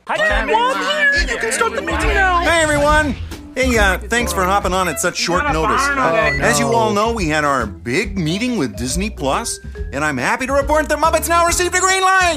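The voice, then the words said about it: Very nasal frog puppet voice. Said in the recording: “Very nasally Kermit. ... he sounds markedly different than Jim Henson”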